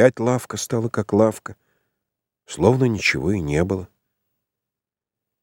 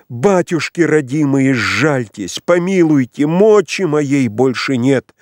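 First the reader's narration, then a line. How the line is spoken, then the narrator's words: Trembling exclamation. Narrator (Russian): Весь дрожащий, воскликнул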